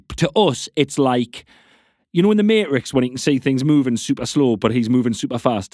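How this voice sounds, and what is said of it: Friendly-sounding regional accent. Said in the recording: “It's such a nice accent. It's so friendly. ... so inviting.”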